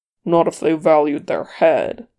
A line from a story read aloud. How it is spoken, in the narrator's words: Thorin growled